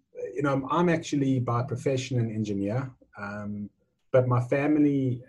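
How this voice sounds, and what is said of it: South African accent. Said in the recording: “the accent might give it away, but I was born in South Africa. I've been in Australia now. This is my 24th year... So if the accent hasn't disappeared by now, I don't think it's going to.”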